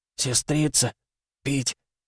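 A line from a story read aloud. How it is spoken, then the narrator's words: Quiet parched rasp. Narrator (Russian): Пересохшими губами он тихо прохрипел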